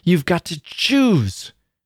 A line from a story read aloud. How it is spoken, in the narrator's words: she cried, as if it were some terrible menace, and as if it hurt her that she could not exact more